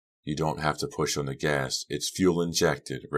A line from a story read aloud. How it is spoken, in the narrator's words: Red said softly